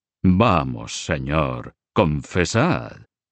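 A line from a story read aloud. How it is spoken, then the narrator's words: Sinister voice. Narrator (Spanish): siempre con la voz siniestra de Guillermo de Nogaré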